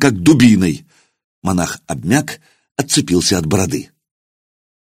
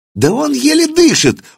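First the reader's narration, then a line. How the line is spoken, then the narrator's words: Shrill squeal. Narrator (Russian): взвизгнул один из них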